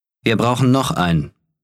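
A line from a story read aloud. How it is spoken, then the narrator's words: Plain. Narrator (German): sagte Akelar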